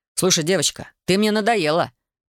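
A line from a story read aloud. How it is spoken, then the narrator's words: Sharp shout. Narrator (Russian): прикрикнул старшина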